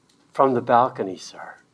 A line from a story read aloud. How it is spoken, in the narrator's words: Sam, with a lot of pain in his voice, mind you, quietly said